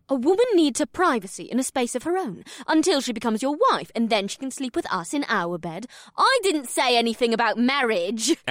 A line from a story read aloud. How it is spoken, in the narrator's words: Amrila squeaked